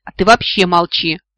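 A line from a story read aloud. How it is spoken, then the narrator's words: Snapping retort. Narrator (Russian): огрызнулась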